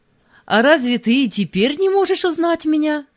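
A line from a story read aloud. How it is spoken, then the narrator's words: Cheerful smiling question. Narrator (Russian): все так же весело улыбаясь спросил Мефодий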